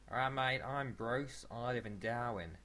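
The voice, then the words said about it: Put-on Australian accent. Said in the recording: “I do quite a good Australian accent.”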